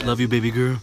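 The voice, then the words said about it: Radio-announcer style voice. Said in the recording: “You got like that radio voice there.”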